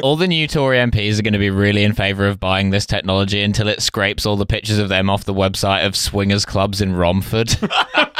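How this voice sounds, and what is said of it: Failed regional English accent, sounds Yorkshire. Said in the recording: “I tried to do a regional accent. ... I seem to be from Yorkshire. I've never even been to Romford. ... I cannot do accents. I will never be able to do a regional English accent.”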